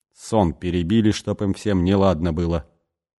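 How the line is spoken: Angry grumbling. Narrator (Russian): сердито бурчал он

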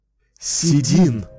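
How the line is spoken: Breathed out in unison. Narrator (Russian): Разом выдохнули они

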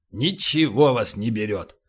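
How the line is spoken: Grumbling. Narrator (Russian): проворчал полубой

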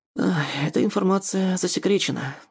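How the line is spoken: Tired dismissal. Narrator (Russian): устало отмахивается Мариан

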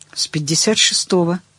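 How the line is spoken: Plain. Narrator (Russian): сказала Таня

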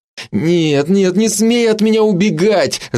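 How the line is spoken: Vexed moan. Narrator (Russian): с досадой простонал Андрей

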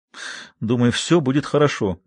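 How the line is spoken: Deep sigh. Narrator (Russian): Гендрон глубоко вздохнул

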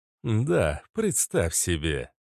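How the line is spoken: Snide remark. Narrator (Russian): ехидно произнес агент Смит

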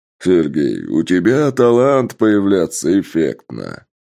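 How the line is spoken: Loud declaration, laughing. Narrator (Russian): громко заявил и не менее громко рассмеялся

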